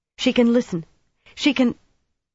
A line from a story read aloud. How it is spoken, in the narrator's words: Irritably, she trailed off